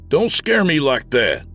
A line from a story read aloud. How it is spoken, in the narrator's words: I shouted